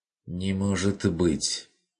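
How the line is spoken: Barely audible, bewildered. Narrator (Russian): Чуть слышно, растерянно проговорил Бруно

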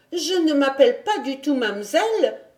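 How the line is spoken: Indignant exclamation. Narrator (French): s'écria à son tour Heidi avec une certaine indignation

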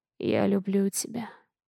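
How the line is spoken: Hoarse. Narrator (Russian): хрипло говорит

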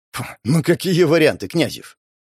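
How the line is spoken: Snorting. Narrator (Russian): Он фыркнул

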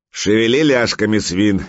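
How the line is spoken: Barked command. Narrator (Russian): гаркнул берсерк

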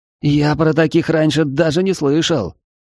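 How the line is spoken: Breathed out. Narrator (Russian): Рядом выдохнул Рассказов

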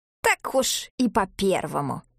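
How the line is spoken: Grumbling old woman. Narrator (Russian): проворчала старуха

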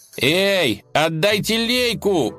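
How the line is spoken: Shouting. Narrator (Russian): закричал он

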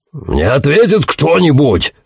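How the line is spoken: Shouting. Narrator (Russian): закричал Пакстон

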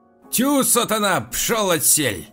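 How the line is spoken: Shouting. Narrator (Russian): закричала хозяйка

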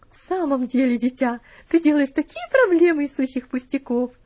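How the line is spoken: Laughing. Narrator (Russian): рассмеялась леди

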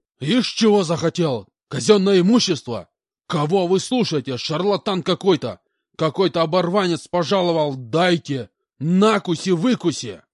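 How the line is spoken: Shouted out. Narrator (Russian): выкрикнул полкан

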